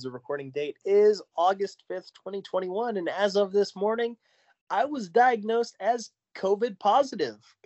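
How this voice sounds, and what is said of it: Congested voice. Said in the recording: “I sound congested”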